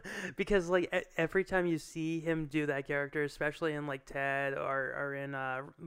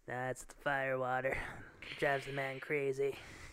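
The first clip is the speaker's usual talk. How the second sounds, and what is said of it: Imitates another person's voice. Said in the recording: “my Giovanni Ribisi impression ... you've nailed the”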